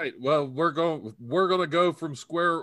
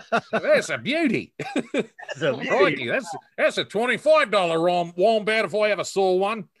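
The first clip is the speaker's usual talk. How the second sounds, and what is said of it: Good put-on accent. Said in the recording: “That's a good accent. I'm impressed.”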